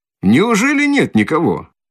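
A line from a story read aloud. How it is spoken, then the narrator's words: Ringing cheerful shout. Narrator (Russian): Звонко и весело закричал подошедший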